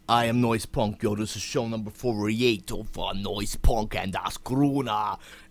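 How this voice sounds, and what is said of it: Strange put-on accent. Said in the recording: “a strange accent. Who the hell are you imitating, man?”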